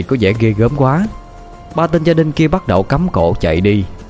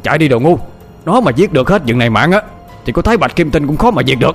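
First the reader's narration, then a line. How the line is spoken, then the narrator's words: Panicked old man's shout. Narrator (Vietnamese): Lão hét trống lên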